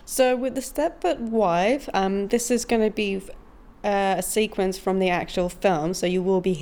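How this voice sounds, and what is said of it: Usual voice. Nothing is said of it.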